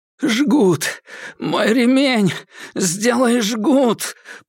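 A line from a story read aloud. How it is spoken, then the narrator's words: Policeman groaning. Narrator (Russian): простонал полицейский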